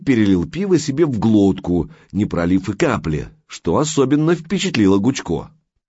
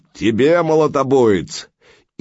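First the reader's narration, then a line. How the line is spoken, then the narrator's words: Loud bark. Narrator (Russian): Гаркнул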